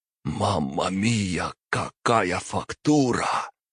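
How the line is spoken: Whisper through bloodied lips. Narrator (Russian): прошептал Марио запекшимися от крови губами

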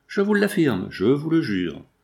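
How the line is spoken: Brisk reply. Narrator (French): répliqua-t-il vivement

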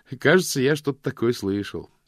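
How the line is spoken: Cheerful reply. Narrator (Russian): весело ответил мокрец

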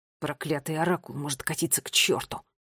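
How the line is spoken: Quiet growl. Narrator (Russian): тихо прорычал Финн

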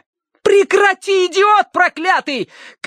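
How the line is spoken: Shout. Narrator (Russian): крикнула Ария в левое окно

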